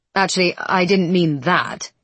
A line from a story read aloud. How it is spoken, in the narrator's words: he says less roughly